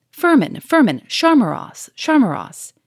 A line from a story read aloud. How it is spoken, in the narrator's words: he roared again